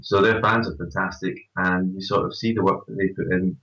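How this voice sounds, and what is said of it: Scottish accent. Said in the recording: “They've got this long-standing connection with Scottish. ... People, which, as you can tell from my accent”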